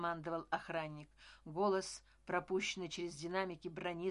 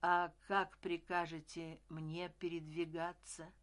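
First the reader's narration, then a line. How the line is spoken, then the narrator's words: Plain. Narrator (Russian): сказал Семецкий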